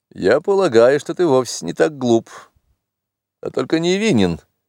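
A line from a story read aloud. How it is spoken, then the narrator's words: Mocking mumble. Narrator (Russian): промямлил он мне насмешливо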